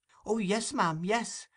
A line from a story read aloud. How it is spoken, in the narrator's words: replied Oliver eagerly